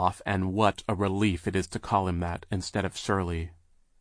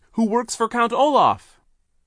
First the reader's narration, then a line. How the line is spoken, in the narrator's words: Sonny cried